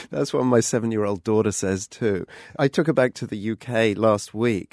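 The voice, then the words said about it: Accent that is hard to place. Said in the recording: “a man with an accent I am still trying to pin down after all these years”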